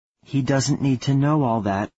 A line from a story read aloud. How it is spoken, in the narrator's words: Eva said